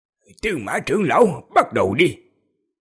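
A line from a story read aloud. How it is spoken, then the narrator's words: Cold voice. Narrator (Vietnamese): Ngũ Tổ Đại Nhân thanh âm lạnh lùng, nói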